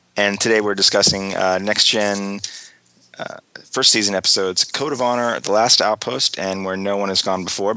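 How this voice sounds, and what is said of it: Slightly hoarse voice. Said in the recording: “my voice is a little hoarse. I have a cold,”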